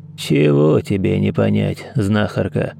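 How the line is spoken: Grumble. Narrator (Russian): пробурчал

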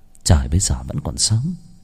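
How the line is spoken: Muttering. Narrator (Vietnamese): Nàng lẩm bẩm

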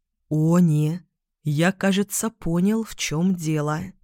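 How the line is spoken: Slow speech. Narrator (Russian): медленно сказал Бон

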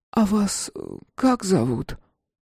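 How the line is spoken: Hoarse. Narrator (Russian): Гульшат откашлялась и хрипло спросила

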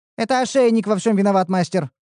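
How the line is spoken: Rapid chatter. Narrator (Russian): затараторила Ниуру

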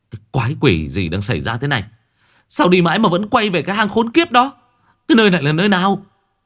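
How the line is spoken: Trembling, frightened. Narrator (Vietnamese): Hồng đã run rẩy lắm rồi

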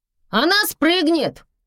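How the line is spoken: Sudden shout. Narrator (Russian): крикнула вдруг Катя

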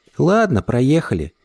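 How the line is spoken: Said quietly. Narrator (Russian): тихо сказала она

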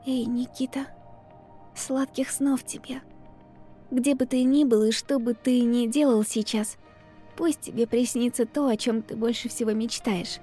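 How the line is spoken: Whisper. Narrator (Russian): прошептала

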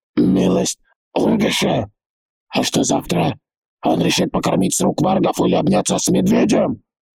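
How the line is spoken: Chief's roaring laughter. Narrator (Russian): вождь так хохотал

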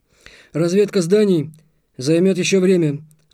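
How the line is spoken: Curt, clipped. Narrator (Russian): отрывисто бросил капитан

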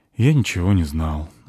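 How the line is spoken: Sighed. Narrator (Russian): вздохнул Кифри

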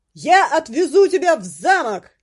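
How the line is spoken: Shouting close to ear. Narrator (Russian): прокричал ей в ухо гвардеец

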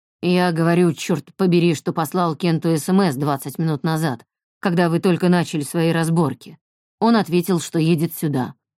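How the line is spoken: Gloomy mumble. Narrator (Russian): мрачно пробубнил Альф

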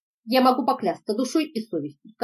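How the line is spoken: Plain. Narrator (Russian): сказал доктор

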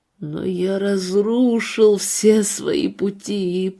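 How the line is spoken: Old man moaning. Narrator (Russian): простонал старый пастор

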